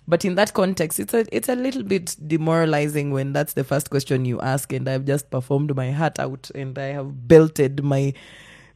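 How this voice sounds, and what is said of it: Thick Kenyan accent. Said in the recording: “as Kenyans we have a very thick accent”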